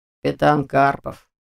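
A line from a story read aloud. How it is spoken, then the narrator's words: Gloomy reply. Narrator (Russian): мрачно отозвался он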